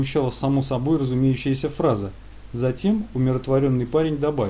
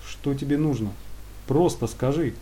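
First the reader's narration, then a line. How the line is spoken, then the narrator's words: Calm. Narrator (Russian): спокойно произнес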